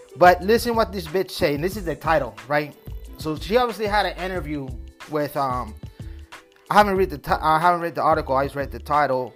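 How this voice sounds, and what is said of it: Spanish accent. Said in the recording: “I got this Spanish accent”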